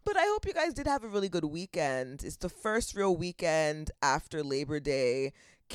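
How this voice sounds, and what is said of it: Congested, lower-pitched voice. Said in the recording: “whenever there's a drastic weather change, the sniffles take place... my voice is an octave lower, or maybe it's half an octave”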